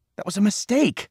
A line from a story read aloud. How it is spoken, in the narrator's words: Cole pleaded